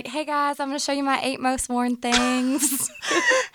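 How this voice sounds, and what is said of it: Subtle Southern twang. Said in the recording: “you can hear a southern accent in my voice ... A subtle twang”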